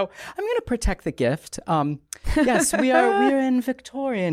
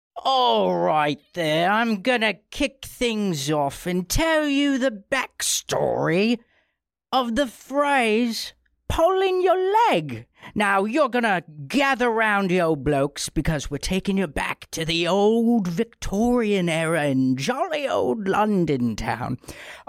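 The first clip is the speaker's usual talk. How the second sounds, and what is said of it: Raspy put-on Cockney accent. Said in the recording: “speaking this whole thing in a Cockney accent, but honestly, this is really hurting my throat. ... Yeah, it's raspy. ... Yeah, it's very raspy,”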